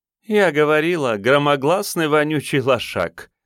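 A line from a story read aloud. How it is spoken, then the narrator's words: Laughing. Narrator (Russian): засмеялась баба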